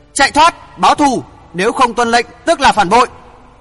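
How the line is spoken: Loud shout. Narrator (Vietnamese): vị trưởng môn thét lớn

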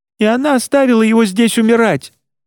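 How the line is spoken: Furious shout echoing in crypt. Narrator (Russian): Она яростно прокричала последнее слово в гулкий склеп

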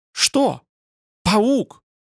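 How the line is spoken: Shriek. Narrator (Russian): завизжала

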